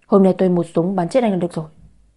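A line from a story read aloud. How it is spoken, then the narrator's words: Angry. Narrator (Vietnamese): Đàm Kiệt tức giận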